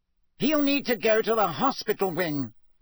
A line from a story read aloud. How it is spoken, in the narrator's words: Fudge was saying loudly